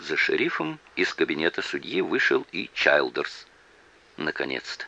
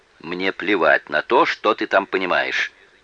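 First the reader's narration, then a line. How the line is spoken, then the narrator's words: Irritated shouting judge. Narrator (Russian): раздраженно выкрикнул в ответ судья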